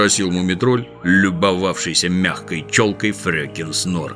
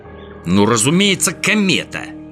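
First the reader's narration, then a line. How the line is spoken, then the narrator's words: Irritated answer. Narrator (Russian): раздраженно ответил Снорк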